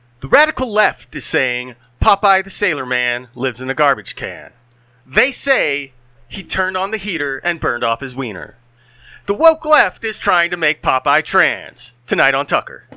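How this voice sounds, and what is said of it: Tucker Carlson impression. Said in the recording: “Work on my impression”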